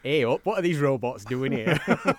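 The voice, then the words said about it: Put-on Yorkshire accent. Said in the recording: “she's from Yorkshire ... she's changed her accent especially ... That wouldn't have sounded good, would it? ... Not so good, in Southern California.”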